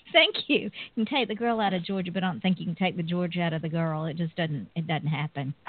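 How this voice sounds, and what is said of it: Southern US accent, Georgia. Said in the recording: “your Southern accent all night long. Beautiful.”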